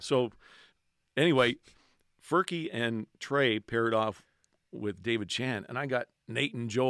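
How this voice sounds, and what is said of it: Usual voice. Nothing is said of it.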